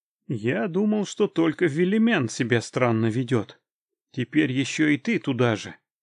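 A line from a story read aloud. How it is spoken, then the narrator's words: Sighing. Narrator (Russian): вздохнул я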